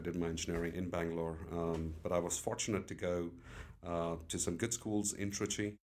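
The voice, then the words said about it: Weird British-influenced accent. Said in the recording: “this kind of accent, this weird accent, what you have? So it comes from the British accent.”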